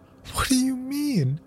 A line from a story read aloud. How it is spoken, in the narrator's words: his mother cried